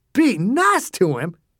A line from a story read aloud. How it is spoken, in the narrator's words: Dew said, his voice rising